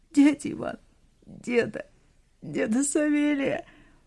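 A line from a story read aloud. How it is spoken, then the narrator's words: Loud choked sobbing. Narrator (Russian): Она громко всхлипывала и не могла сказать то, что хотела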